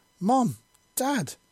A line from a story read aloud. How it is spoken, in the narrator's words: the young teen yelled